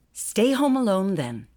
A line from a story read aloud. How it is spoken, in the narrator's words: her mother said sharply